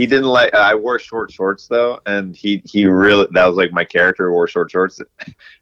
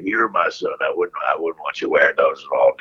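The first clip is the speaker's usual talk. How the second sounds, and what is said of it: Imitates another person's voice. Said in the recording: “That's a good impression right there... that was pretty spot on right there”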